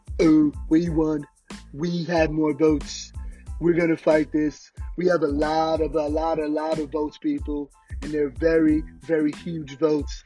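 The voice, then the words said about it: Donald Trump impression. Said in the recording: “It's not the best Donald Trump impression.”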